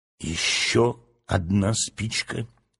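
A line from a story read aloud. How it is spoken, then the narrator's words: Heavy sighing whisper. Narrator (Russian): с тяжелым вздохом прошептал Фред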